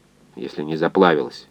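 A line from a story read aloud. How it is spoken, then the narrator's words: Gruff mutter. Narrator (Russian): буркнул инженер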